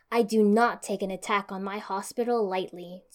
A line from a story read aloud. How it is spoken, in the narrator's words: Tsunade growled